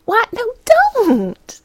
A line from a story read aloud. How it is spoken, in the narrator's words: Madison shrieked